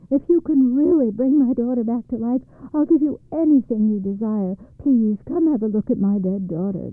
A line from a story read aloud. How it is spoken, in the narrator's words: the father pleaded